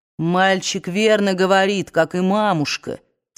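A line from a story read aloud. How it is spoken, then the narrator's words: Plain. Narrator (Russian): сказал Ред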